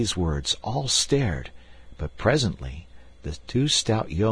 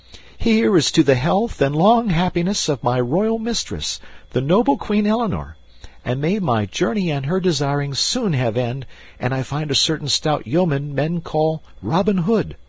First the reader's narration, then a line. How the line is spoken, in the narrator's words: Young Partington cried